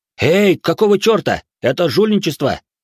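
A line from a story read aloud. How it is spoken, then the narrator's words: Shout. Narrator (Russian): выкрикнул Ичиро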